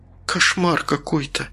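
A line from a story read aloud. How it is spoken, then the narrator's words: Quiet, woman. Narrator (Russian): тихо произнесла Маргарита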